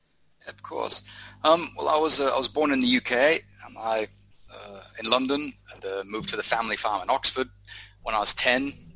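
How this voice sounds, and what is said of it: Odd, hard-to-place mixed accent. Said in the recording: “you've got an odd accent. Took me a while to try and pick it.”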